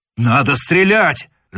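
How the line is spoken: Shouting. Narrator (Russian): закричал штурман

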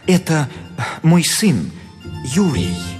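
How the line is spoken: Guilty voice. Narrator (Russian): Репин виноватым голосом отвечал

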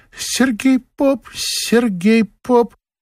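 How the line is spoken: Shy squeak. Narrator (Russian): Одна лишь Лида Писаревская по застенчивости пискнула

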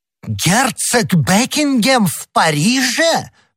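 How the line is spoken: Exclamation. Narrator (Russian): воскликнул король

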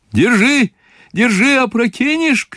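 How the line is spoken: Shouting. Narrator (Russian): кричал он ему

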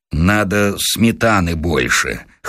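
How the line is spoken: Gloomy mutter. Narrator (Russian): хмуро пробормотал Василий Сергеевич

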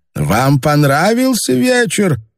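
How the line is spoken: Calling after someone. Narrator (Russian): крикнул вслед им министр

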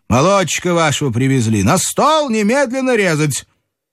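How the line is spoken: Doctor shouting. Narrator (Russian): доктор крикнул Елизавете Киевне

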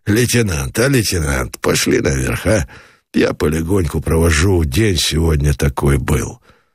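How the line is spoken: Quiet. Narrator (Russian): Меженин сказал негромко

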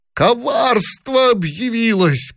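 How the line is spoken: Shouting. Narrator (Russian): кричал он

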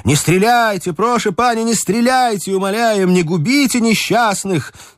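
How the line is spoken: Shouting. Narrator (Russian): Они кричали

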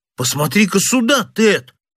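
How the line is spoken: Astonished young exclamation. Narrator (Russian): воскликнул младший из сыщиков тоном самого крайнего изумления

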